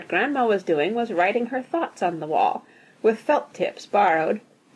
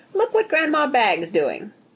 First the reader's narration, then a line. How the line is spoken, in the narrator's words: said happily